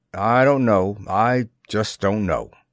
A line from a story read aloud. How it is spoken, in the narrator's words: the captain grunted